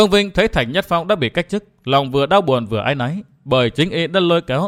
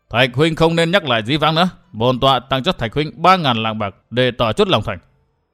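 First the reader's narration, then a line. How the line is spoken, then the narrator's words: Cold interruption. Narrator (Vietnamese): Bao Thiên Thành lạnh lùng ngắt lời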